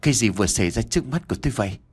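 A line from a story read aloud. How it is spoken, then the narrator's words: Trembling mutter. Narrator (Vietnamese): Nam ... miệng lẩm bẩm nói đầy run rẩy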